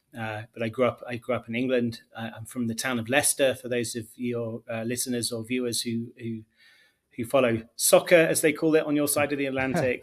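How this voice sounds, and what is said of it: Elegant, fairly generic English accent. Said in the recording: “your accent ... Yours is like an elegant. You got a real nice one ... Is that northern England? ... mine is quite generic”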